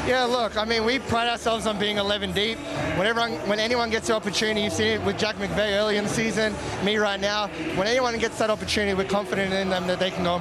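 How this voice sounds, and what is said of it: Speaks with an American-sounding accent. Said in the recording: “somehow finds an American accent”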